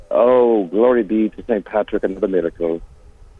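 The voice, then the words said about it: Put-on Irish brogue. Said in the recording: “Oh, I love your Irish brogue ... I love imitating accent, you know, people's accents.”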